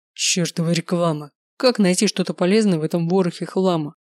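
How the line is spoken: Grumbling. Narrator (Russian): проворчал отец

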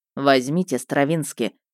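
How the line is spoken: Stern command. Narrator (Russian): велел он строго

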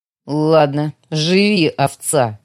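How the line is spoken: Growled. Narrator (Russian): прорычала я

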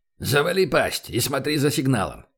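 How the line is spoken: Barking. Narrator (Russian): рявкнул он

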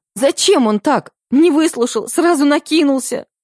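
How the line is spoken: Sobbing. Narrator (Russian): Аня всхлипывала

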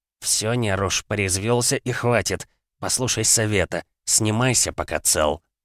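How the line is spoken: Barely voiced hiss. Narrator (Russian): одними губами он прошипел

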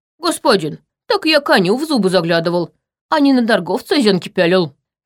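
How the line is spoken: Snorting retort. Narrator (Russian): фыркнул Черим

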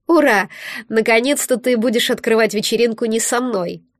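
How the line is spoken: Laughing. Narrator (Russian): рассмеялась Велена

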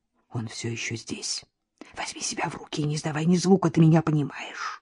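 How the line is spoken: Whispered. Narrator (Russian): Надежда Николаевна прошептала

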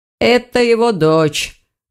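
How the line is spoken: Stranger's muffled mutter. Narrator (Russian): глухо пробормотал незнакомец

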